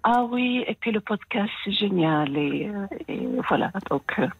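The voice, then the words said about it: French with slight American accent. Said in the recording (French): “vous avez un petit accent ... y a un, petit accent euh, américain, enfin il y a un petit accent”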